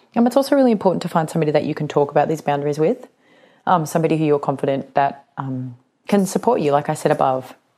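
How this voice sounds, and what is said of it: Voice of someone with a cold. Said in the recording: “I've got a bit of a cold”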